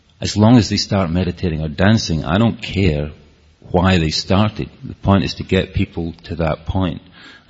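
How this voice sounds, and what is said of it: Scottish accent. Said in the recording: “with my Scottish accent”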